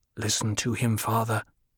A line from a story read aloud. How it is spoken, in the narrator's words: Paul said in a low voice